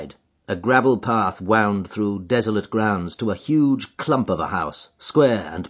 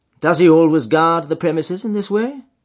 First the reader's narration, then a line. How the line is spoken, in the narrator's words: asked Holmes